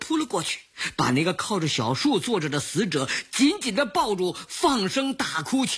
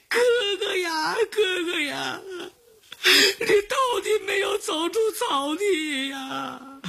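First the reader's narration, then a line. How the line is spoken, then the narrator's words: Grief-stricken sobbing. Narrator (Chinese): 因为他哭得十分哀痛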